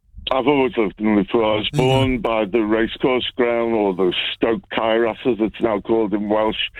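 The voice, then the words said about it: Scouse accent. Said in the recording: “I've got a Scouts accent”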